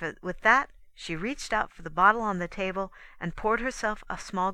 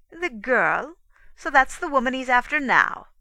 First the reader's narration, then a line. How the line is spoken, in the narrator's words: Nina laughed bitterly